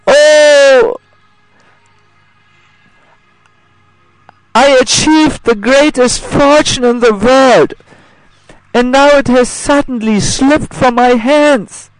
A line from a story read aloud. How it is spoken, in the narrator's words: He then cries in great lamentation